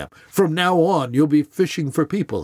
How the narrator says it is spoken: he says

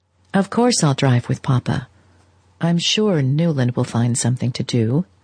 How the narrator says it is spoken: May said in a tone that gently reminded her husband of his lack of response

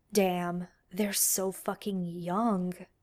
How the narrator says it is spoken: murmurs

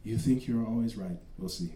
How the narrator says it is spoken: said in a calm voice

